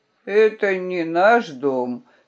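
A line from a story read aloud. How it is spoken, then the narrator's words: Sleepy answer. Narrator (Russian): сонно ответил он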